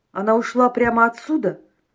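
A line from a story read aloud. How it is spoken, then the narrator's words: Plain. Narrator (Russian): спросил Борис Романович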